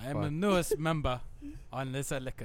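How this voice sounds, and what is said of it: Put-on mixed German-Russian accent. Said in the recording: “I so went out of Russian accent. I don't know what this accent is anymore ... a cross accent. Between like drunk German and... kind of Russian.”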